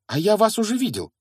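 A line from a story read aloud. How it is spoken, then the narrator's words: Exclamation. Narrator (Russian): воскликнул Гарри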